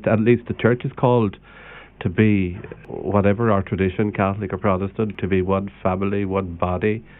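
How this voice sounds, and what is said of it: Slight Limerick Irish accent. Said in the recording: “Still got a wee trace of the Limerick accent.”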